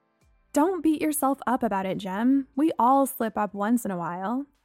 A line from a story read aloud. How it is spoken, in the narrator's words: I said